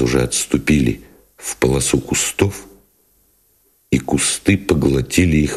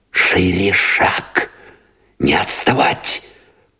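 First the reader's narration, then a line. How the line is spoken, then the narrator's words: Urgent whisper. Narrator (Russian): поторопил шепотом Новиков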